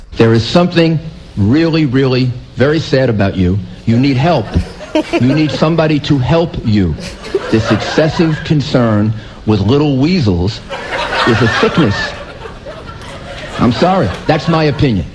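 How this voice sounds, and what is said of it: Imitates another person's voice. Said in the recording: “That was a great impression”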